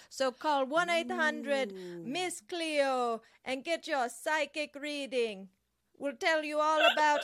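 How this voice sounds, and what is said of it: Miss Cleo fake Jamaican accent. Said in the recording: “her accent was fake, too ... I'm doing a Miss Cleo dialect, which is a fake dialect that she did. ... A fake trying to be Jamaican accent.”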